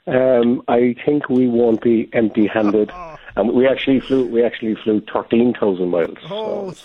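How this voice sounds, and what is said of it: Lovely Irish accent. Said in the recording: “that accent ... the lovely accent, Irish”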